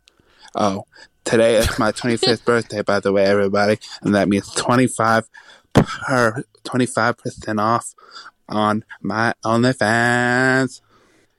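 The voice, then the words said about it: Affected put-on accent. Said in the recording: “I think that may have been an affectation, that accent.”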